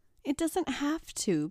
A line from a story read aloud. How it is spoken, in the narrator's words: pleaded Tracy